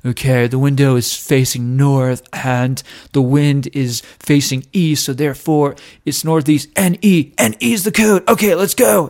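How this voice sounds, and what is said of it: Poor imitation of another person's voice. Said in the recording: “So he's channeling Keanu Reeves? Because that's what it sounds like. ... I just have the worst Nicolas Cage impression.”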